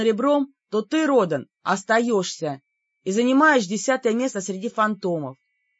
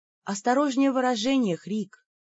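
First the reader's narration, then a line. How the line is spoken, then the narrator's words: Soft, smiling. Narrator (Russian): мягко улыбнулась я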